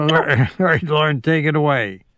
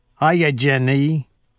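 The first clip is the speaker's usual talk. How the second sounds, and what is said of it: Forrest Gump impression. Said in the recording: “do my Forrest Gump impression”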